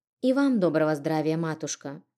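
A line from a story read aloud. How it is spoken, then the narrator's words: Calm greeting, holding back tears. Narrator (Russian): Спокойно поздоровалась я, хотя к глазам подступали слезы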